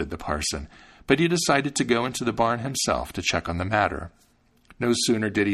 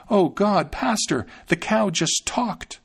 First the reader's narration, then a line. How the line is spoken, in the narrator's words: She exclaimed